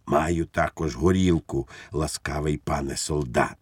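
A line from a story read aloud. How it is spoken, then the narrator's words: Man whispering. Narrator (Ukrainian): пейсатий пан прошепотів йому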